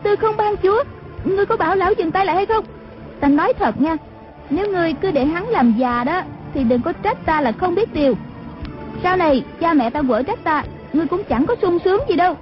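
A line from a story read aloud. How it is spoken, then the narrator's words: Startled, frightened cry. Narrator (Vietnamese): Nàng giật mình kinh hãi la lên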